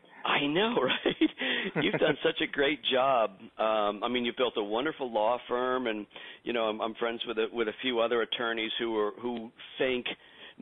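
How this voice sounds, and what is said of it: Sick, strained voice. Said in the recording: “I apologize for my voice ... my cold medicine”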